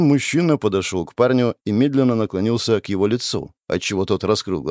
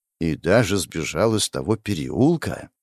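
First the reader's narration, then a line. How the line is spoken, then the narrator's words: Whispered. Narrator (Russian): прошептал врач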